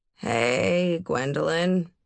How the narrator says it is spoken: I said in a slow, cracking stoner voice

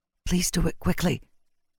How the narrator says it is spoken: she said, on a broken whisper

